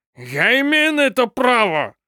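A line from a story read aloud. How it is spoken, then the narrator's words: Growled reply. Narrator (Russian): Прорычал он в ответ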